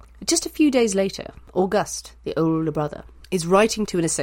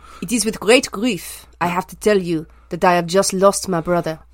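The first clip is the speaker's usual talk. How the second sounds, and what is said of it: Dramatic put-on French accent. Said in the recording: “Would you like me to do this in a French accent? ... How dramatic a French accent do you want? ... Oh, very.”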